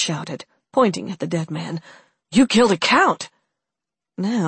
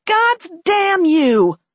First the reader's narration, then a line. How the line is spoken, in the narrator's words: shouted one of the robbers